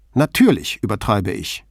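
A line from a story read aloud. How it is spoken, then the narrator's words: Sharp retort. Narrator (German): entgegnete sie scharf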